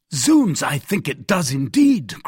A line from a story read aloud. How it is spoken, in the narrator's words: cried the Gascon